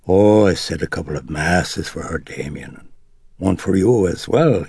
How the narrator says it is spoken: wheezed with a lilting Irish brogue

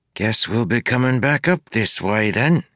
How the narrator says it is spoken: he said with a sigh

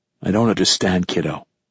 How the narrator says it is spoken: I said, my voice softer now

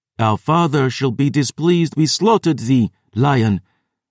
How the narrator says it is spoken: Alain said

